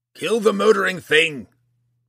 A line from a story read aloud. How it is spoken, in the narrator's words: Roddy cried